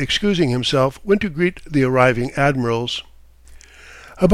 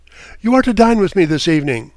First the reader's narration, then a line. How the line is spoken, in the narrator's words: He laughed … calling out